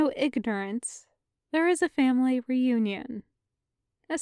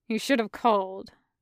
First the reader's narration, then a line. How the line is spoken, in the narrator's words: the man grunts back